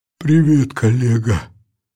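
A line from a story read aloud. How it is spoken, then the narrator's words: Hoarse voice. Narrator (Russian): хрипло произнес он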